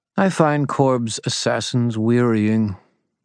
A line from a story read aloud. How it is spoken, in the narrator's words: Mab said calmly